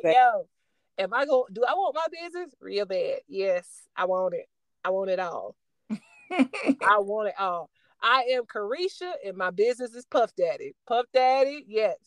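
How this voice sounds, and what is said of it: Imitates another person's Florida accent. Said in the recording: “she's from Miami, so that Florida accent would come out real quick”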